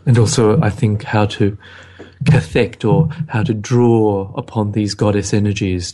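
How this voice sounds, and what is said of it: Smooth late-night radio host voice. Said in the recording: “we have the late night radio voices ... I like the voice. Can we do the voice?”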